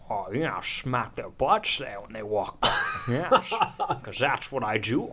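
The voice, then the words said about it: Sean Connery impression. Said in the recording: “Do your voice ... Sean Connery”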